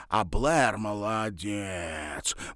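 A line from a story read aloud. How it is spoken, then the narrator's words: Drawn-out admiring. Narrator (Russian): протянула она с восхищением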